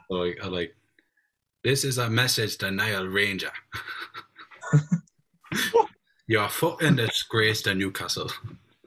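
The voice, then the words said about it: Put-on Geordie accent. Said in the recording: “I can kind of do a Geordie accent, but I can only do things that True Geordie has said in the past.”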